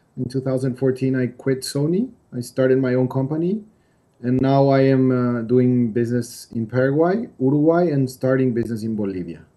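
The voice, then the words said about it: English-learned accent, non-native speaker. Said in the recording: “I went to England to study English, as you can tell by my accent.”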